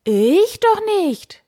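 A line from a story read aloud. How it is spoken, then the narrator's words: Knight calling out. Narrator (German): rief der Ritter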